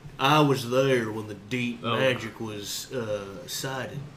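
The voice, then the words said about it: Put-on deep southern drawl. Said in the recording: “deep southern drawl”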